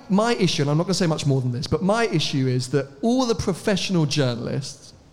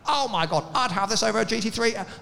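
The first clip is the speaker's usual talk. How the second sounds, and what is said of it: Mock hyped car journalist voice. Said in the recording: “I'm doing that voice, but I actually love all those journalists.”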